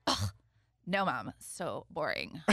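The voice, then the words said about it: Imitates a bored teenager's voice. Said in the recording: “That's a good impression.”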